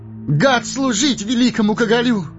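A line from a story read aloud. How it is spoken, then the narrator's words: Eager exclamation. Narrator (Russian): с готовностью воскликнул Пипин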